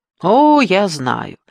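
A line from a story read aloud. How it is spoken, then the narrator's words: Cheerful. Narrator (Russian): весело проговорил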